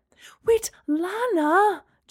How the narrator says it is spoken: Gemma cried

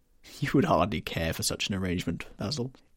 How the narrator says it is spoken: said Lord Henry, laughing

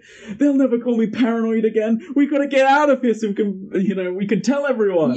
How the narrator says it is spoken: relieved not to be paranoid screaming

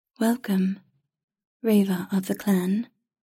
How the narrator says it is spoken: it said in a smooth, melodic voice that was not quite a man's nor a woman's

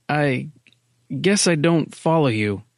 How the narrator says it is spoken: Miller faltered

